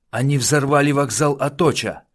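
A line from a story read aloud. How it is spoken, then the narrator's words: Loud shout. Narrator (Russian): прокричал Мартин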